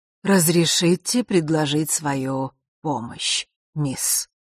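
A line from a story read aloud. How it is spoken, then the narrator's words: Strong velvety husky voice. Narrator (Russian): произнес он все тем же сильным и в то же время бархатным с хрипотцой голосом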